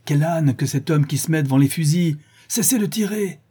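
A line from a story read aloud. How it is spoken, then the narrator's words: Shouting at full lungs. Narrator (French): cria-t-il de toute la force de ses poumons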